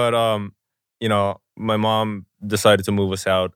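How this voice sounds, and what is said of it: Usual voice. Nothing is said of it.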